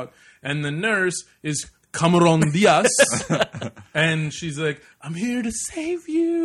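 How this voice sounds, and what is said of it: Usual voice. Nothing is said of it.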